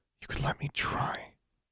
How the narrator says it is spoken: Alexandra whispered

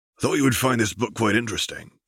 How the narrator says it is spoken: chuckled Hagrid

